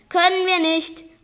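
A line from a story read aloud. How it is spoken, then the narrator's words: Calling from outside. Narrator (German): rief Olaf von draußen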